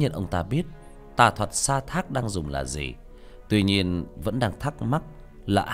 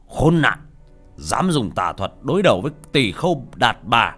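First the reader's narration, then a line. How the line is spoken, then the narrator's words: Angry shout. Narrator (Vietnamese): Ca Lâu Vương đập bàn quát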